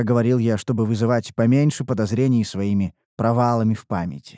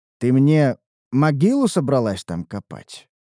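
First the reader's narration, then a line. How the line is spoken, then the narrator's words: Dry tone. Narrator (Russian): проговорил я сухо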